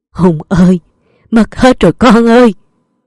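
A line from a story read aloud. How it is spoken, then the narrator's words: Moaning. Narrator (Vietnamese): Ông Minh ngoảnh mặt lên nhìn thấy Mạnh Hùng thì rên rỉ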